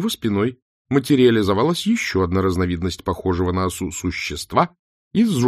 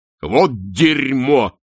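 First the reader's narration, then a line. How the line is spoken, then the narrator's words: Barking. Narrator (Russian): рявкнул чудак Улли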